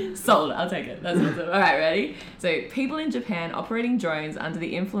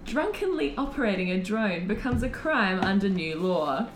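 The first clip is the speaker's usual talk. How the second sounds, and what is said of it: News anchor voice. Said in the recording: “You actually got a good news voice.”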